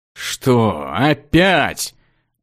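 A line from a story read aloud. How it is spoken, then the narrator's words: Resigned moan. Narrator (Russian): обреченно простонал маг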